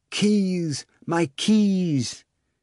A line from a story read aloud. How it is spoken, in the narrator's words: gasping